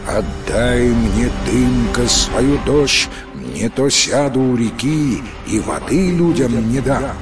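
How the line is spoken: Human voice. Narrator (Russian): говорит ему человеческим голосом

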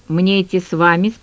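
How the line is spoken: Tense question. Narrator (Russian): спросил Дружинин напряженным голосом

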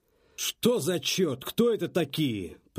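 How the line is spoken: Excavator growling. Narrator (Russian): прорычал экскаватор

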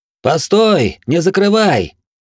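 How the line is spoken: Screaming at full voice. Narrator (Russian): Надрывая глотку, закричал Глорг

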